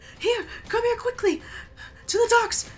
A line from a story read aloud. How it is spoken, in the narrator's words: a woman saying